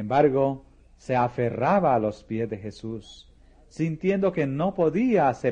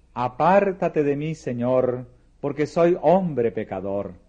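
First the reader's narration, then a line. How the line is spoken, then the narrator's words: Exclaimed. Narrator (Spanish): Pedro exclamó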